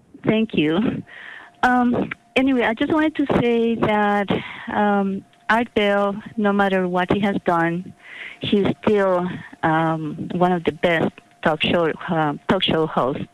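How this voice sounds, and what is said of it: Speaks with a noticeable accent. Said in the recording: “you have a lovely accent, by the way. I'm, I'm very intrigued.”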